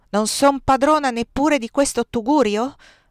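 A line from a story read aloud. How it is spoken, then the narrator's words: Angry voice. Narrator (Italian): rispondo con voce adirata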